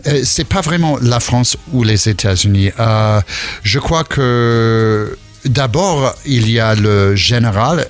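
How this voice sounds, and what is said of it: Slight American accent in French. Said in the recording (French): “On entend ce petit accent... petit accent... j'arrive pas à perdre mon accent... Je suis de New York à l'origine”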